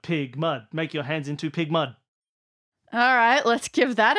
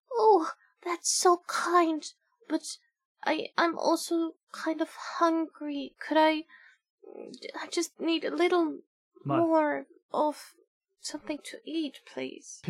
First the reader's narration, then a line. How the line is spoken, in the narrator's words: In a faint voice it says